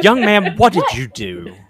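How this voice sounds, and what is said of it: Scolding mom voice. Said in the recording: “mom voice”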